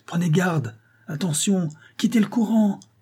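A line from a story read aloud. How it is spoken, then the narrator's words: Shouting. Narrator (French): criait-il à Tom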